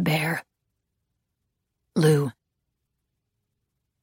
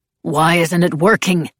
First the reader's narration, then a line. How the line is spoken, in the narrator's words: Reed snapped